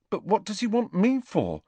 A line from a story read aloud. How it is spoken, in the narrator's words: asked Neville nervously, as though he were expecting detention